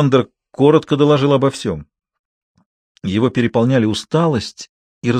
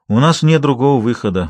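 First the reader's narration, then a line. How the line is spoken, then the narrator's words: Sighing. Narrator (Russian): вздохнул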